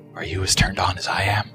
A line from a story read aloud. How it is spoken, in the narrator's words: a warm, tickling breath whispered